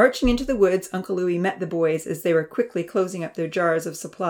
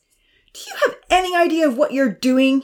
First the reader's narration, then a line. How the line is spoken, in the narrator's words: confronted them angrily